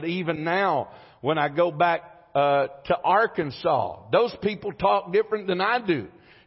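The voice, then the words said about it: Slow speech, southern American accent. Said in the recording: “I talk slow and I've got a southern accent”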